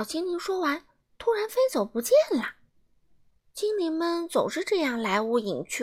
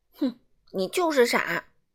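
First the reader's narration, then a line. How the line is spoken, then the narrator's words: Stern, sharp. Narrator (Chinese): 傲慢先生厉声说道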